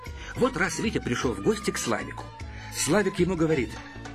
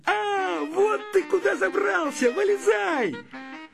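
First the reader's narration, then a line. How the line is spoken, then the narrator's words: Shouting. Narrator (Russian): Славик закричал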